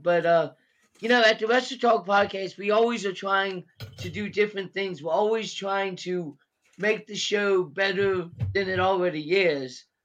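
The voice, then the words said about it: Voice affected by a cold. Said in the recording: “apologize for my voice. I've got a little bit of a cold,”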